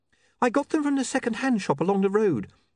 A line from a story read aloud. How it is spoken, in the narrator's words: said Saccharissa nervously